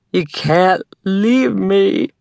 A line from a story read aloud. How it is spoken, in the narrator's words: sobbed, slurring the words